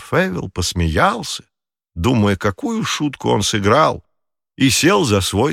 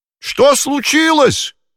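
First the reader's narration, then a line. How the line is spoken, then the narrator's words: Shouted. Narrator (Russian): крикнул он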